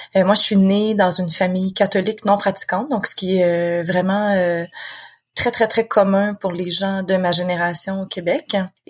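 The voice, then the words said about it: Quebec French accent. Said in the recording (French): “je suis quelqu'un qui vit au Québec. De toute façon, on l'entend très bien avec mon accent.”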